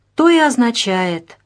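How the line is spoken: Sighing. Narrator (Russian): вздохнула Вероника Павловна

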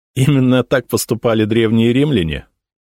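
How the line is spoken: Laughing. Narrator (Russian): рассмеялся я

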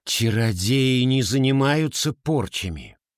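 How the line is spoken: Mother, through gritted teeth. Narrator (Russian): Сквозь зубы процедила мама

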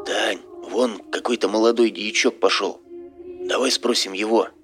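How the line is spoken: Whispered. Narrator (Russian): снова шепнул ей на ухо Серега

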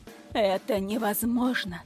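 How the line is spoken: Muttered. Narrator (Russian): пробормотал

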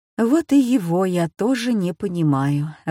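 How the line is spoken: Inner sigh. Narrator (Russian): вздохнула она про себя

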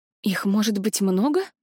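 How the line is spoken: Breathed out. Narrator (Russian): выдохнула я

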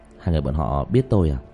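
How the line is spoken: Quiet voice. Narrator (Vietnamese): Diệp Thiếu Dương nhỏ giọng

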